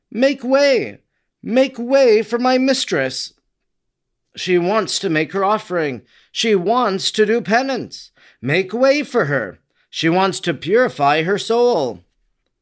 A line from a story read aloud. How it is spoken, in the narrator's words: exclaiming